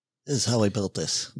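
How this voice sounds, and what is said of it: Poor Guy Raz impression, Simpsons-professor-like. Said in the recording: “my Guy Raz impression ... I thought it was the Simpsons professor ... it doesn't sound anything like Guy Raz ... it's way off from it”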